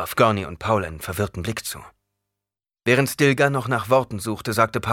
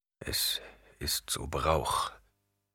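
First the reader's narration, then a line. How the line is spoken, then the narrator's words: Murmured. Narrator (German): murmelte er schließlich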